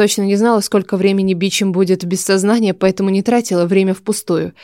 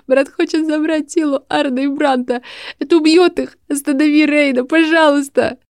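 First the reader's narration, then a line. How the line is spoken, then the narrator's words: Sobbing, gasping. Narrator (Russian): Последние слова утонули в судорожном вдохе и очередном всхлипе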